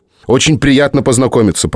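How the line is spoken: Rapid chatter. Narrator (Russian): продолжал тараторить Майкл

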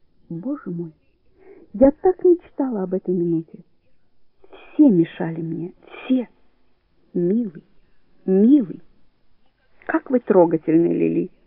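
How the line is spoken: Playfully sad, after pause. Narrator (Russian): После маленькой паузы шутливо-печально говорит Семен Николаевич

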